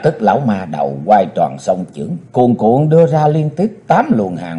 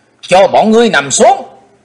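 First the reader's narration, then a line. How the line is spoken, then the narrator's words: Young hero shouting. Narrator (Vietnamese): chàng thiếu hiệp theo tiếng quát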